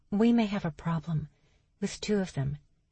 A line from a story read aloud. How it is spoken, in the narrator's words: Lottie stood and softly said to Charles